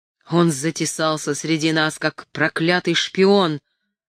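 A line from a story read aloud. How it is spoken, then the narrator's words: Growled. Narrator (Russian): прорычал Вилсон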